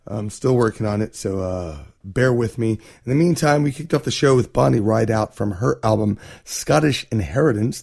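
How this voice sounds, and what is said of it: Voice not fully recovered. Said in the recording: “As you can hear, my voice is not 100% yet.”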